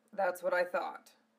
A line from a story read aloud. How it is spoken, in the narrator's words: Zell said curtly